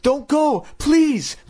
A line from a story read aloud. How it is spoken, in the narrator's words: Chris cried